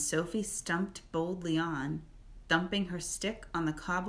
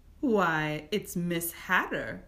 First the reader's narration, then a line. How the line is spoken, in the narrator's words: the witch said, laughing